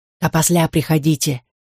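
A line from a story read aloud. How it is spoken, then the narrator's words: Confiding whisper. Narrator (Russian): прошептал он доверительно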